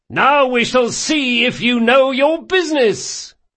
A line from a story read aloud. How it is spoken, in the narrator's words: shouted Locke, unable to disguise his mirth